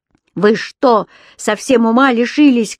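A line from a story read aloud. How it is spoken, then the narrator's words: Shouting. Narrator (Russian): кричал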